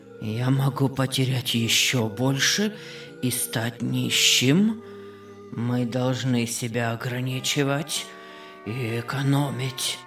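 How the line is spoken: Sick man muttering. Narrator (Russian): бормотал больной

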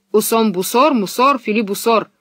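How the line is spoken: Menacing. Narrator (Russian): сказал капитан и грозно нахмурил брови

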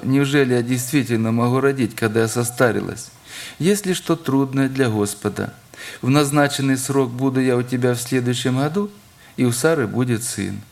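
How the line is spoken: Laughing. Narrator (Russian): рассмеялась, Сара, сказав

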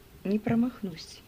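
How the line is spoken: Calm reply. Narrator (Russian): спокойно ответил Джордж

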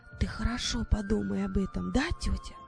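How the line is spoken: Secretive whisper. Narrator (Russian): прошептала так, чтобы никто не слышал

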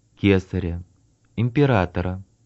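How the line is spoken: Plain, several voices. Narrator (Russian): ответили они

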